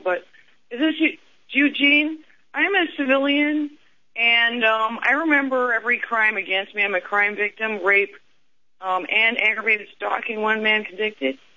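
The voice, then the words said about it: Congested voice from a cold. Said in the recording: “I'm sorry I have a cold”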